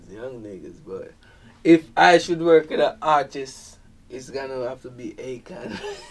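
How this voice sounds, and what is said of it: Thick Jamaican accent. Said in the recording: “you come from Jamaica ... your accent is very you know thick ... I have a thick accent”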